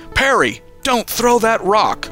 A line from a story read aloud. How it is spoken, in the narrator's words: Uncle Sheo yelled